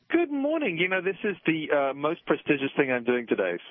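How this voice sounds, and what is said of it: British accent. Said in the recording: “the good guy with a British accent”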